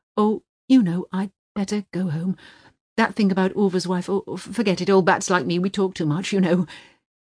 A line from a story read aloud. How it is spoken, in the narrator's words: Runa's wife fumbling nervously for words, and then exclaiming